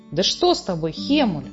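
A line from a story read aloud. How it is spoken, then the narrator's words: Agitated exclamation. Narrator (Russian): Взволнованно воскликнула Фрекин Снорк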